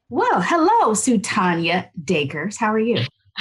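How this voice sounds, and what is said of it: Formal podcast-host voice. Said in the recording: “I had to turn on my formal voice. This is my podcast voice.”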